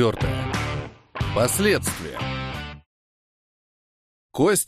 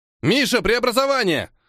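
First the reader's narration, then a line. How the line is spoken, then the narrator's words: Shout. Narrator (Russian): крикнул Костик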